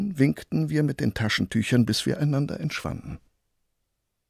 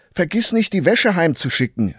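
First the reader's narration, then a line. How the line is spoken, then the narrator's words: Mother calling after someone. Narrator (German): rief meine Mutter hinterher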